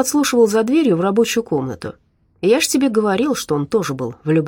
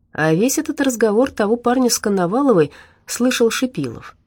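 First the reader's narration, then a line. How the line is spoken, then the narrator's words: Calm. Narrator (Russian): спокойно ответил Жиляев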